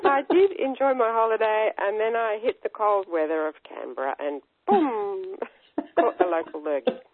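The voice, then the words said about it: Congested voice from a cold. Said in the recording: “I'm a bit crook. I'm just getting over a nasty cold, as you can probably hear in my voice”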